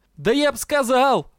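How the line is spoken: Yelling. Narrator (Russian): заорал Дроу

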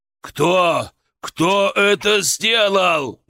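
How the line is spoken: Shouting. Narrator (Russian): прокричал

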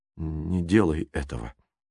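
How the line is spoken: Quietly said. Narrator (Russian): тихо проговорил он

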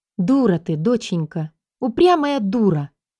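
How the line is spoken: Mother on phone, sighing. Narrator (Russian): Мама в трубке помолчала, вздохнула, а потом вдруг

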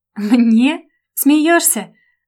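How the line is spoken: Woman laughing loudly. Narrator (Russian): Расхохоталась

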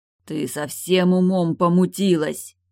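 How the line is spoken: Muffled growl. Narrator (Russian): глухо прорычал

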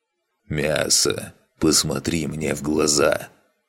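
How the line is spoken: Hiss. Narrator (Russian): прошипел Тардат

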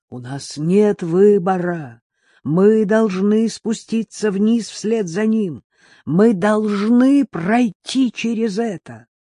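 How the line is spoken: Shouted. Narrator (Russian): он прокричал старику

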